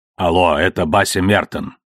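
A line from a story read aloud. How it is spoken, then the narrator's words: Calm voice. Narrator (Russian): как спокойно звучит его голос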